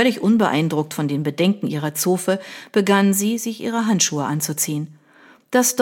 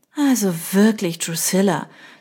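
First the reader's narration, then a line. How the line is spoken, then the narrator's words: Sighing. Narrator (German): seufzte Beatrice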